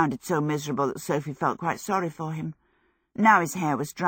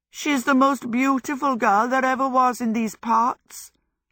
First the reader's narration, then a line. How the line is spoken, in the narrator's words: Howl went on mournfully